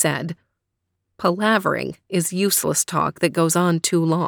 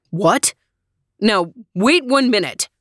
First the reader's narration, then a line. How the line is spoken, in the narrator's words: shouted Daddy